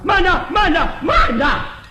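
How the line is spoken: Loud shout. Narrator (Chinese): 有人高声喊

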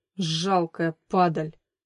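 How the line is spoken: Angry. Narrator (Russian): зло произнес Никита

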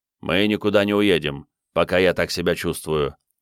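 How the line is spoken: Grumbling. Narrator (Russian): проворчал Крейг

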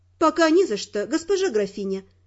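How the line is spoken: Plain. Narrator (Russian): ответила я

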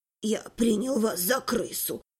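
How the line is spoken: Gruff mumble. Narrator (Russian): буркнул охотник

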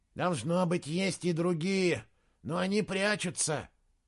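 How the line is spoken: Breathed out. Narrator (Russian): выдохнул другой солдат

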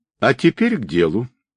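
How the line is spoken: Calm. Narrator (Russian): спокойно проговорил тот

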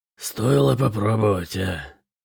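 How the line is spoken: Grumbled. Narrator (Russian): проворчал Бытрим

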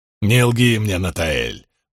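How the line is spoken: Growled. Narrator (Russian): прорычал Ранд

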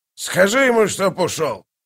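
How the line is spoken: Bark. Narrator (Russian): рявкнул он

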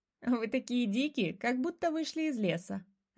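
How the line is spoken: Laughing. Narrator (Russian): рассмеялась Дана

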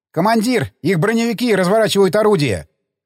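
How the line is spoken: Shout. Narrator (Russian): крикнул стрелок главного калибра

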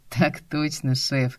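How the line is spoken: Laughing. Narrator (Russian): засмеявшись

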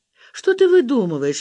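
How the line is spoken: Laughing. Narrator (Russian): рассмеялась Валя

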